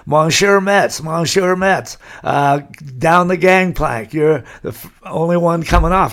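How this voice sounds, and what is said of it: Broken English, French accent. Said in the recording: “in broken English, French accent”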